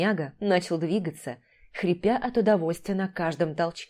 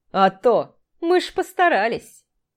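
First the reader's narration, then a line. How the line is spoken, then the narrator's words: Two men laughing. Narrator (Russian): рассмеялись любитель мохнаток и мужчина с татуировкой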